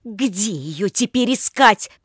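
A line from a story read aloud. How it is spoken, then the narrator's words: Shouted out. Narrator (Russian): выкрикнула она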